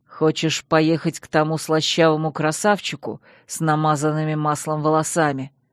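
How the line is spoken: Through clenched teeth. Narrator (Russian): процедил Чейз сквозь плотно сжатые зубы

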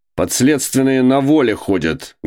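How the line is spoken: Viscount barking loudly. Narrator (Russian): гаркнул виконт

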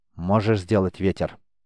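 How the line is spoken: Dry, emotionless, quiet. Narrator (Russian): Сухо, без единого намека на эмоции, тихо спросила она

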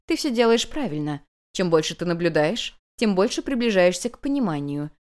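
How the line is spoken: Calm reply. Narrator (Russian): спокойно отозвалась хозяйка

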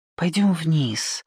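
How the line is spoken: Whispered request. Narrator (Russian): шепотом попросила Ники

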